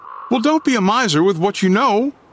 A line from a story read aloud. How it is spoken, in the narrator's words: Scott said sharply